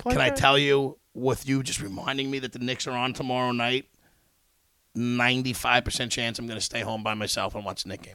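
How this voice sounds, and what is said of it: Strained, worn-out voice. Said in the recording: “with your throat ... My voice is done.”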